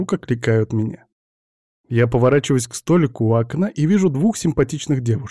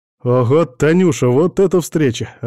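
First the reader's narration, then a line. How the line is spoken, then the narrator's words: Joyful reply. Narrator (Russian): радостно отвечаю я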